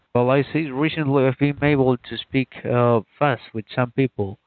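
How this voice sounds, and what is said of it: Non-native English accent. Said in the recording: “your accent could be a lot better, but it's plenty good for communication.”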